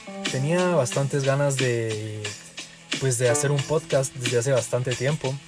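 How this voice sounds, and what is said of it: Guatemalan Spanish accent. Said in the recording (Spanish): “soy de Guatemala. Creo que se me nota en el acento, bastantito creo yo”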